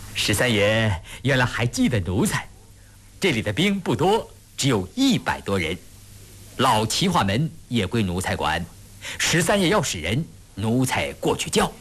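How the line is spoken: Hurried, smiling. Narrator (Chinese): 辛逸飞忙笑着说

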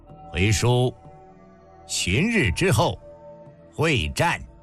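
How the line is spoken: Flat, indifferent. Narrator (Chinese): 王翦对身旁矗立的中军司马淡淡一句道

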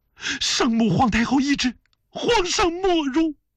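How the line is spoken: Loud. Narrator (Chinese): 婉儿又大声地说道

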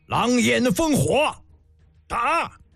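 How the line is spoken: Loud roar. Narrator (Chinese): 胡杨大吼一声

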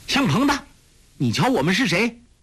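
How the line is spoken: Loud shout. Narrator (Chinese): 大声叫道

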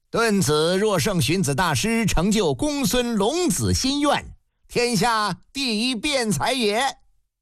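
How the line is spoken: Loud call. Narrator (Chinese): 台下有人高声一句

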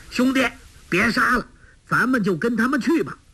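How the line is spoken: Loud shout. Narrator (Chinese): 纵声叫道

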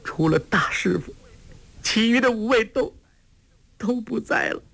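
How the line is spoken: Crying. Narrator (Chinese): 郭靖哭道

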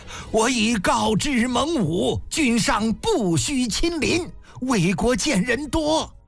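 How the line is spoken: Loud. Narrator (Chinese): 李斯高声道

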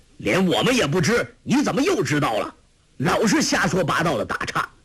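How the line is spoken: Farmer's stern shout. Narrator (Chinese): 农夫 厉声喝道

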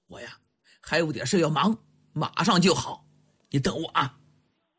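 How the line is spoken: Hurried, soft. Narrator (Chinese): 他赶紧轻声对蒙丹说

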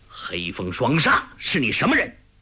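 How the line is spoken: Sharp demanding question. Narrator (Chinese): 喝问

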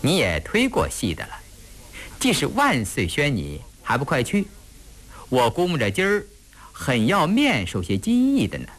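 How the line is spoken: Smiling. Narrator (Chinese): 印题笑着说

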